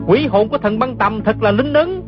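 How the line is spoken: Overjoyed cry. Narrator (Vietnamese): không nén nổi sung sướng la lên

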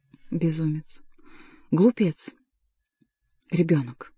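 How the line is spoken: Whispered. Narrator (Russian): прошептала Флорентийка

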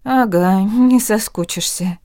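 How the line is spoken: Very sad. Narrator (Russian): подтвердила так грустно

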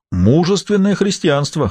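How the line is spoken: Short laugh. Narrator (Russian): хохотнул Рене

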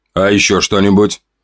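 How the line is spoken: Even, businesslike voice. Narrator (Russian): спросил он ровным, деловым голосом

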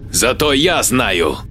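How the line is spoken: Growl. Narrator (Russian): рыкнул Джек

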